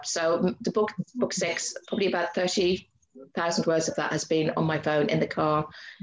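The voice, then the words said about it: Irish accent. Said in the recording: “I've got an Irish accent”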